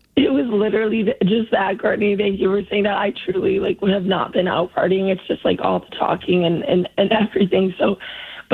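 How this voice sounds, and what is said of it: Hoarse, worn-out voice. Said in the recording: “Sorry I lost my voice, so apologies to all the listeners... your voice sounds that way”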